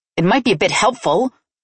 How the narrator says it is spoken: I snapped sarcastically

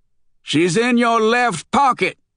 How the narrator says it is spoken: shouted Luther

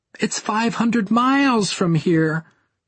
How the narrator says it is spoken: she pleaded

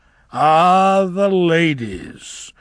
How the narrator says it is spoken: slurred Averick

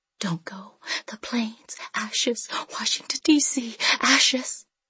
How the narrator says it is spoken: Moon Orchid stood by the front door, whispering, whispering

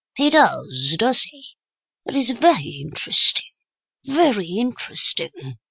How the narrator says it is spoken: murmured Poirot softly

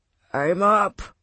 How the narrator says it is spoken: Walker groaned, hoping Jenkins would go away

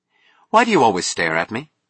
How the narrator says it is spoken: she asked sharply

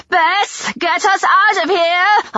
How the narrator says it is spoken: I yelled

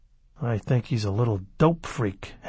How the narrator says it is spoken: Halleck muttered

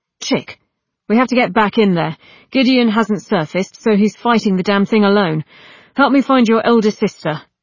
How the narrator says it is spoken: approached and snapped

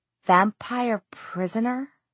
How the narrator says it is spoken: whispered

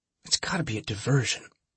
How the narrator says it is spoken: Trip whispered

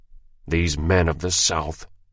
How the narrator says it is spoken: he muttered

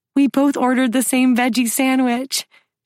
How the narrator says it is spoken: she exclaims

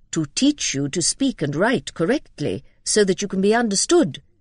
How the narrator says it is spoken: said Mrs

